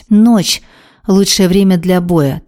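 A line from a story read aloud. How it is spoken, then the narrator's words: Solemn woman. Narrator (Russian): торжественно произнесла мать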